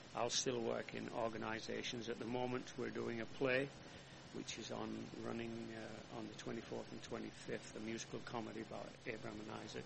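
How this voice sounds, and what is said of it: Non-American foreign accent. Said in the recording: “I'm proud to be an American with a funny accent”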